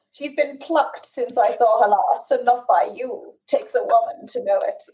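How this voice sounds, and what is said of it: Put-on accent, not convincing. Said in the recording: “I shouldn't have even tried with the accent”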